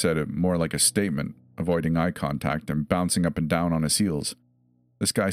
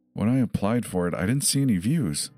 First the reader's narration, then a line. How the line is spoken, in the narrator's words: saying through gritted teeth